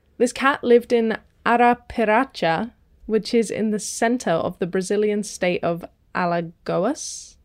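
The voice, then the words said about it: Put-on Portuguese accent. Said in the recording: “my voice immediately put that accent on ... a beautiful Portuguese accent”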